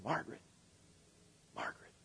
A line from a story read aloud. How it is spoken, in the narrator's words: someone was whispering her name